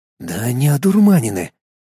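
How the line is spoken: Whispered to oneself. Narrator (Russian): шепотом осенил я сам себя

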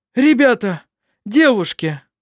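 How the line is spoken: Exclaimed. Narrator (Russian): воскликнул

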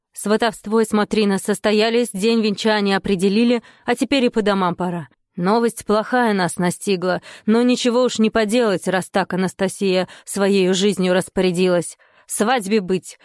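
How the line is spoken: Loud voice. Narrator (Russian): громким голосом сказал отец Дмитрия

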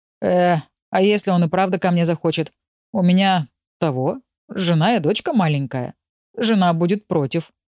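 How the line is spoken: Muttering. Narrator (Russian): бормотал Виктор

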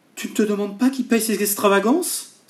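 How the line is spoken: Exclaiming. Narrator (French): s'écria Simone

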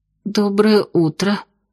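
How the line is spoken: Hoarse mumble. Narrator (Russian): хрипло пробормотала я

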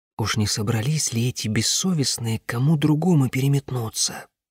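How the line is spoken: Whispered. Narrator (Russian): прошептала она Аянь

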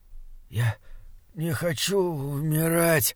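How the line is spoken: Wheezing, rasping. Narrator (Russian): хрипел Гримрик

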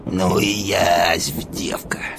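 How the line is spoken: Puzzled mutter. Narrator (Russian): Солдат пробормотал

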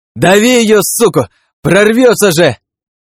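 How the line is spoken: Voice from behind. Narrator (Russian): Раздалось где-то за спиной

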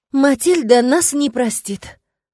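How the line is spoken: Sighing summary. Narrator (Russian): вздохнув, резюмировала Кассандра

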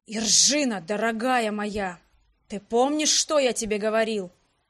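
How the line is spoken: Hissing. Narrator (Russian): Прошипел Фалхерт

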